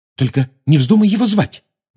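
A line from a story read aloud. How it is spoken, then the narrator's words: Agitated. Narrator (Russian): взволнованно сказала Гермиона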